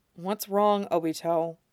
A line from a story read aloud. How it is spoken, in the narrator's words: asks gently